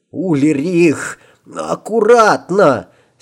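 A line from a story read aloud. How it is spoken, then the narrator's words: Hoarse wheeze. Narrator (Russian): сипел Аль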